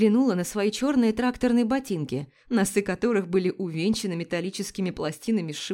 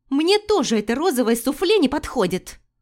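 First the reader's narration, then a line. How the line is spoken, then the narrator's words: Indignant yelling. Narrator (Russian): Возмущенно вопила Вероника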